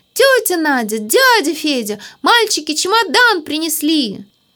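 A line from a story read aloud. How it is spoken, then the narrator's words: Shouting. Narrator (Russian): закричала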